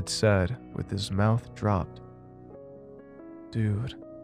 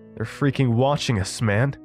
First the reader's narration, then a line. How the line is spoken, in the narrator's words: Evan said as his voice raised with each word